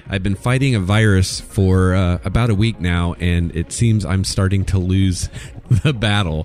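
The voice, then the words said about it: Sick, weird-sounding voice. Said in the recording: “my voice sounds a little weird today”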